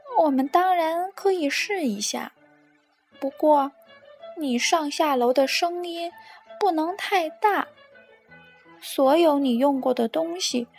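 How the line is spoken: Sighing. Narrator (Chinese): 兔子先生 叹了口气说

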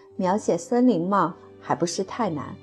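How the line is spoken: Sighing. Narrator (Chinese): 戴安娜叹了口气说

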